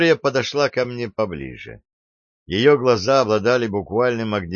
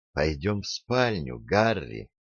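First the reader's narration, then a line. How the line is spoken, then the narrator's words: Tender whisper. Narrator (Russian): нежно прошептала она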